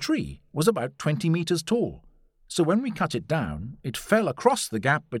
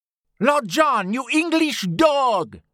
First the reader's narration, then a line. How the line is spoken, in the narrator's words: shouted